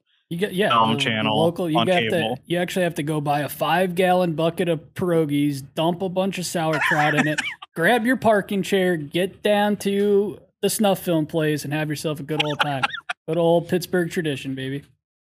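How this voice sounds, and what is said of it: Imperfect put-on Pittsburgh accent. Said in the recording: “that guy's accent's a little off. Originally not from Pittsburgh ... I tried my best”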